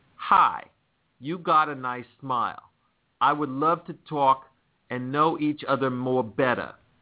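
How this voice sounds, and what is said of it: Put-on New York accent. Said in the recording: “That's my New York accent.”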